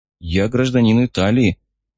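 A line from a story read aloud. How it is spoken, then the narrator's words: Uncertain. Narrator (Russian): неуверенно произнес Гарик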